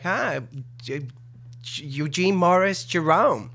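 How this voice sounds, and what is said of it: Put-on New York accent. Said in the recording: “I sort of did this New York thing, you know, where this was my accent”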